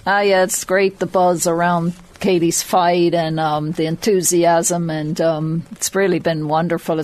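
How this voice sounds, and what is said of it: Irish accent mixed with American. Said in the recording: “I can hear the accent over... It's all muddled up... the Meath has been knocked out of you”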